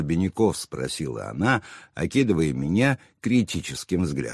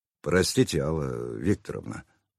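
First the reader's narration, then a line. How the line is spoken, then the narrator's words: Contrite mutter. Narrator (Russian): пробормотал я покаянно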